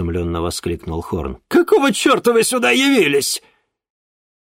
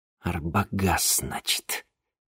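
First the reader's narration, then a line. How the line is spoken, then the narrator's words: Through gritted teeth. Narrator (Russian): процедил Денис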